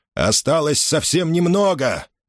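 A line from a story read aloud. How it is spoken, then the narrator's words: Shouting. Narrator (Russian): крикнул он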